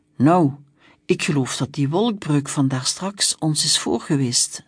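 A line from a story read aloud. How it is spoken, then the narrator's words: Plain. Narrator (Dutch): zei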